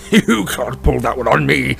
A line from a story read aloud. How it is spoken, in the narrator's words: snarled Uncle Vernon